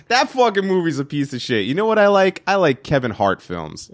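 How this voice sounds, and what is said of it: Put-on Florida accent. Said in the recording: “That was true Floridian right there ... I like your Florida accent.”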